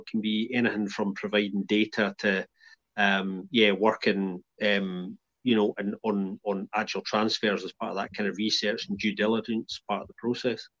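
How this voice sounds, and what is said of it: Non-Belgian accent. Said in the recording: “your accent certainly not a Belgian one”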